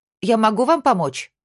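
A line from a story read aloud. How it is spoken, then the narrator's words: Shouted. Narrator (Russian): крикнула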